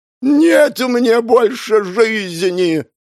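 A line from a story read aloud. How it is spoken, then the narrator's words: Theatrical roar. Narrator (Russian): театрально взревел он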